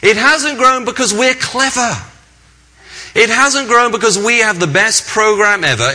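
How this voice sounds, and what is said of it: English accent. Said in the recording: “a cute English accent”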